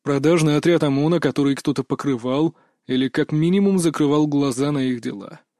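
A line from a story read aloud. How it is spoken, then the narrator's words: Calm with steely edge. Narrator (Russian): произнес он спокойно, однако в его голосе явно слышались металлические нотки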